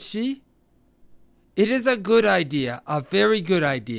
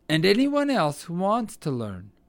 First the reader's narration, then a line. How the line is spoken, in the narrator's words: replied Old Mother Nature kindly